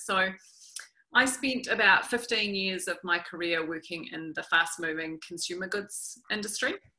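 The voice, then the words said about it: New Zealand accent. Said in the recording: “the New Zealand accent can take a little bit of getting used to”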